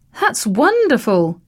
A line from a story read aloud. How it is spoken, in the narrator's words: the artist exclaimed